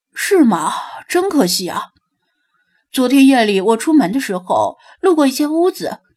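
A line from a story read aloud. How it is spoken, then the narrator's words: Disappointed sigh. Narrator (Chinese): 弗拉基米尔流露出失望的表情，叹了口气道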